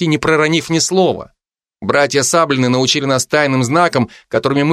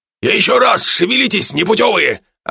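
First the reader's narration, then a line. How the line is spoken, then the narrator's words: Yelling. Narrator (Russian): орал он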